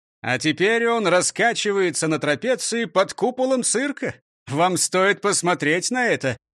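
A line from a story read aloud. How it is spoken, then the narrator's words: Exclaiming. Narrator (Russian): воскликнул Дон Карлос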